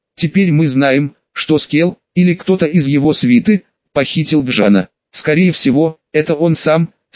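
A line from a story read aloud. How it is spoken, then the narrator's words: Plain. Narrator (Russian): сказал Ка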